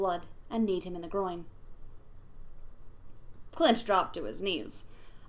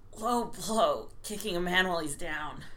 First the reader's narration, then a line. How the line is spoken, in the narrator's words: he grunted